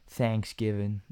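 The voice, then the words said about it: Bad put-on American accent. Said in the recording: “It's a really American thing, isn't it? ... That's a horrible accent.”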